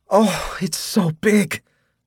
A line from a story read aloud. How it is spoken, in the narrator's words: she cried